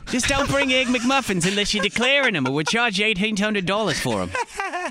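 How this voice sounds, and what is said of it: Deliberately bad put-on Australian accent. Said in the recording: “Terrible Australian accent.”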